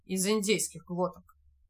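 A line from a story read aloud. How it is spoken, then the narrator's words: Gloomy reply. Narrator (Russian): мрачно ответил Мулат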